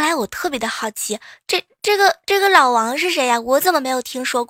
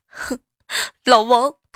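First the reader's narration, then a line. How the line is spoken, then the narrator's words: Crying. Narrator (Chinese): 我闺蜜呢是一边哭一边说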